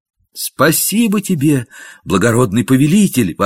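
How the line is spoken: Fervent grateful exclamation. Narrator (Russian): воскликнул Гемфри в порыве горячей признательности

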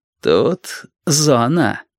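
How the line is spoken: Insinuating explanation. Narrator (Russian): вкрадчиво объяснил капитан

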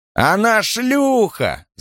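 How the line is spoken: Yelling. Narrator (Russian): заорал один

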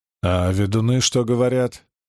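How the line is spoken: Scoffing grunt. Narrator (Russian): Симеон хмыкнул

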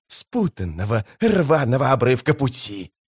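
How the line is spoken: Hissing. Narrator (Russian): прошипел Искарал прыщ

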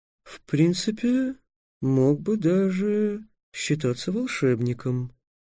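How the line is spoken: Soft, gentle. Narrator (Russian): мягко добавил желтый дракон

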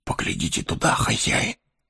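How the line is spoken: Whisper. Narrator (Russian): шепнул он

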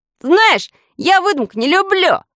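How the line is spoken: Shout. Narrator (Russian): крикнул он

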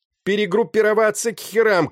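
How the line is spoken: Shouting. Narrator (Russian): кричал он

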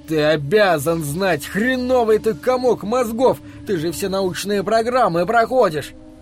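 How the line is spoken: Yelling. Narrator (Russian): Дик вопил

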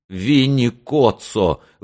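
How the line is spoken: Sobbing, forced out. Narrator (Russian): выдавил тот, всхлипывая

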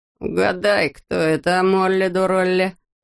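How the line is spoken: Muttered. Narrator (Russian): пробурчал он

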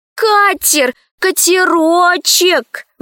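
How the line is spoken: Pleading. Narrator (Russian): взмолилась Лара Коралли

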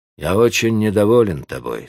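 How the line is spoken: Cold tone. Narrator (Russian): сказал архидьякон холодным тоном

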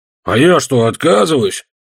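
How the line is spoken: Grumbling to himself. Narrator (Russian): проворчал рыжий Руди, обращаясь не столько ко мне, сколько к себе

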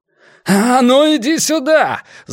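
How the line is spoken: Yelling. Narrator (Russian): заорал

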